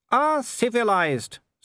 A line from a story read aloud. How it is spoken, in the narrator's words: said Wolfgang cheerfully